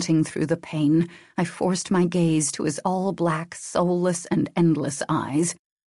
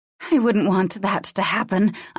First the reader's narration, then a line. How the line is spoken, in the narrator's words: I gasped out